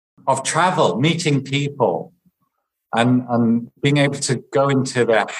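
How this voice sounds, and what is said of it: Usual voice. Nothing is said of it.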